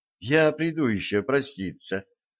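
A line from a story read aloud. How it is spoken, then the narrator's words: Quiet speech. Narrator (Russian): тихо сказала Стесси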